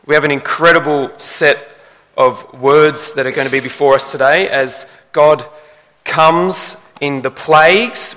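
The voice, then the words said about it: Congested voice with a cold. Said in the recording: “If you haven't picked it up yet, I have a little bit of a cold.”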